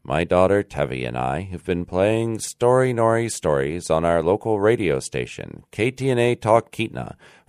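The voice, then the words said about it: American accent. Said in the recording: “You may notice I have a different accent than Natasha, Elizabeth, and Richard, who you usually hear on Story Nori. That's because I live in the United States, in the state of Alaska.”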